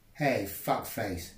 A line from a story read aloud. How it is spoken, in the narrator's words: he said